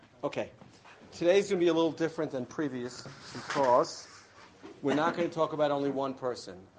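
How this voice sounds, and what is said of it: Losing voice, strained. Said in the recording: “I'm just losing my voice.”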